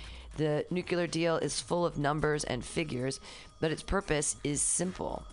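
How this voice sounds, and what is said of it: Usual voice. Nothing is said of it.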